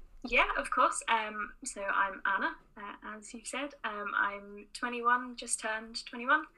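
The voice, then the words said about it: English accent, not Northern Irish. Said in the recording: “I'm not from Northern Ireland, as you can probably tell from my accent. I'm originally from Oxford”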